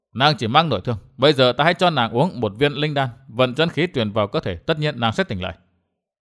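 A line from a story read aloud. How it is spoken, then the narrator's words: Muttering. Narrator (Vietnamese): Gã lẩm bẩm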